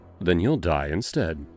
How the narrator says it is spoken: I said simply, my voice cold as ice

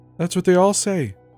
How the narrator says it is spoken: she said with a light laugh

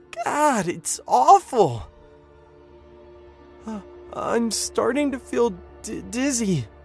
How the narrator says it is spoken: John whimpered

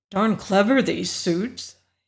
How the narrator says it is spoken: murmured

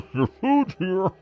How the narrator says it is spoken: He laughed then, this low, wheezing chuckle

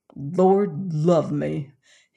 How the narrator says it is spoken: he exclaimed at last in huge disgust

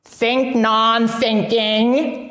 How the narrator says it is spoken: Zenzo grunted

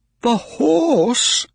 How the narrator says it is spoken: cried Mr

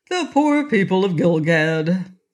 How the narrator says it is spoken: said Rinky Tink cheerfully

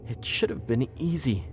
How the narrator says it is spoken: she said

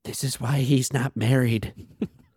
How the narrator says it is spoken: The nephews whisper

